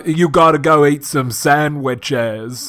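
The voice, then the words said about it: Slow southern accent impression. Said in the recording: “a real slow southern accent ... I can't do a good Gump”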